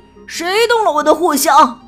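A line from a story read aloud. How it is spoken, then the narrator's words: Angry roar. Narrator (Chinese): 他大吼道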